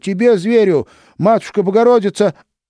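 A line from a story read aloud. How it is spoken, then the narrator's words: Brave shout. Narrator (Russian): отважно закричала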